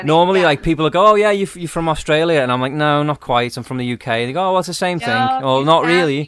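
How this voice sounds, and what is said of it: Birkenhead English accent. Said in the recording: “You sound just like my brother-in-law ... born and raised in Birkenhead”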